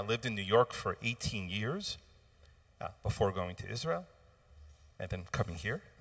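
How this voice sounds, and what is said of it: American accent. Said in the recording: “if you couldn't hear in the accent, I am by birth an American”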